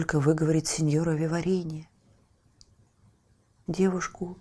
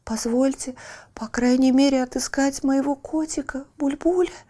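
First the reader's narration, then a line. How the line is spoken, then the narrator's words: Timid, tearful. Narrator (Russian): робко проговорила заливавшаяся слезами Лючия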